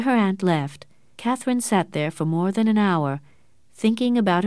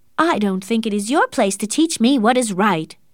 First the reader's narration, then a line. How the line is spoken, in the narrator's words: she said angrily